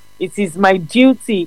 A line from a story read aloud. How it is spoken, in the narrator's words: he answered